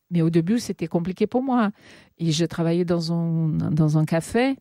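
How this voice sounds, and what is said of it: Brazilian accent in French. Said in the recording (French): “vous avez un accent. Oui, oui, oui, j'ai un accent. ... quand on vient du Brésil”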